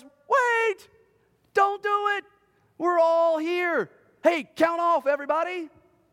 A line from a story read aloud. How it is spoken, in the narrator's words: Paul yells